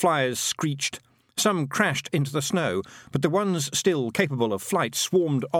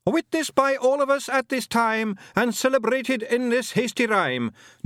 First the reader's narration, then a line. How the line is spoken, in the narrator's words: Jock shouted after them